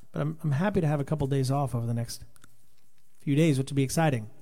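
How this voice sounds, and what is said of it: Tired, strained voice. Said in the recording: “my voice is like, hey, brother, stop”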